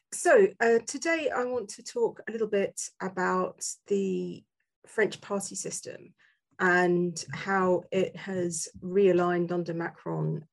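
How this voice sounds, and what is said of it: Slightly hoarse voice. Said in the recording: “I'm in the final throes of COVID, so I'm a little bit hoarse”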